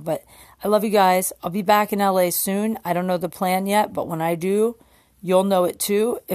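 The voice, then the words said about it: Strained, fading voice. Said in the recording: “I'm losing my voice, so I gotta stop talking now.”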